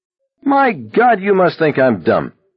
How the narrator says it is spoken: Abraham hollered

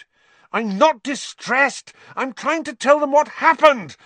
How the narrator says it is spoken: Harry said furiously

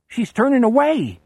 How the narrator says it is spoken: Bobby yells jubilantly

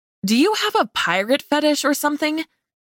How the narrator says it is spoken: blurted with confusion

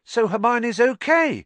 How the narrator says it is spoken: said Ron, brightly

